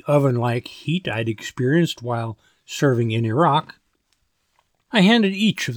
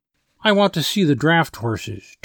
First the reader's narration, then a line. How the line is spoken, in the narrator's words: Tinker said as he waited impatiently for Tubby